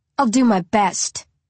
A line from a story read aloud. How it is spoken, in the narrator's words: I snarl